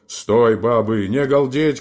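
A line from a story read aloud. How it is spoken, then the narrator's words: Loud booming bass shout. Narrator (Russian): крикнул он, покрывая сразу своим басом их голоса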